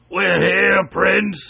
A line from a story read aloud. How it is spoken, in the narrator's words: yelled Wooltakem